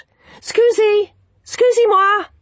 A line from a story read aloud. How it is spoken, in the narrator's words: he shouted